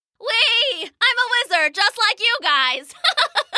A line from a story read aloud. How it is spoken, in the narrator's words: Gwip yelled with delight